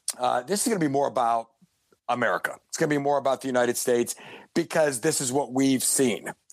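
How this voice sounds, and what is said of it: Voice giving out, hoarse. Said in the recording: “excuse me, as I lose my voice again”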